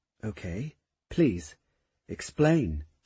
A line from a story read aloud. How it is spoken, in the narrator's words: she said softly